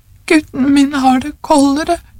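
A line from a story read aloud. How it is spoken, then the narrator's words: Old woman sobbing. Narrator (Norwegian): sa den gamle konen hulkende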